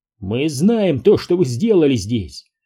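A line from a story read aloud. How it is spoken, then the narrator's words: Bark. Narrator (Russian): рявкнул Стив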